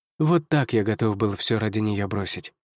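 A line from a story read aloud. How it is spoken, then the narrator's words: Sigh from behind. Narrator (Russian): вздохнул за моей спиной Лиам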